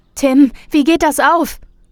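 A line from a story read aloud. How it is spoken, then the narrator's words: Many voices shouting at once. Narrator (German): Die Dorfbewohner schrien jetzt alle durcheinander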